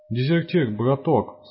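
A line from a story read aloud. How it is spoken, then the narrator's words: Pleading. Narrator (Russian): взмолился Насвай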